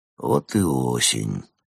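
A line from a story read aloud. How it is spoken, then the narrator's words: Muttered. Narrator (Russian): пробормотал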